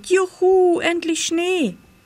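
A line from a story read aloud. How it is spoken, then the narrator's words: Called out. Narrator (German): rief Pitt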